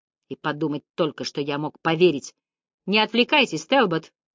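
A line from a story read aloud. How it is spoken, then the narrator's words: Sharp interruption. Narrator (Russian): резко прервал меня Вайланд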